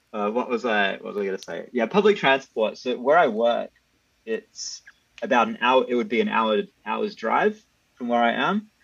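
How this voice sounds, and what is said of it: Australian accent. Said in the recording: “you can hear it in my voice ... you don't hear that same accent ... the full Australian experience ... the first Australian accent on this podcast”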